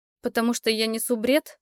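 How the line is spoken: Laughing. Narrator (Russian): Эрик засмеялся

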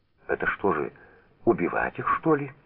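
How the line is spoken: Frightened question. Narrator (Russian): испуганно спросила Лиза

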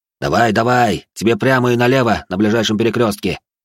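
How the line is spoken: Amused snort. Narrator (Russian): Я хмыкнул

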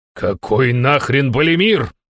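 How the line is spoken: Indignant. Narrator (Russian): возмутился я

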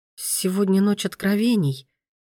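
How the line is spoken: Flustered, bewildered. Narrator (Russian): произнесла Мия растерянно, не зная, куда деться от пронизывающего взгляда синих глаз

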